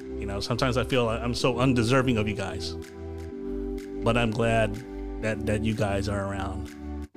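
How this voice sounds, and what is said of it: Emotional, choked-up voice. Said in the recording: “I'm sorry it's a little bit emotional here”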